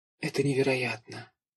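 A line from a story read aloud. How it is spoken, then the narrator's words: Whispered. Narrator (Russian): прошептала Аня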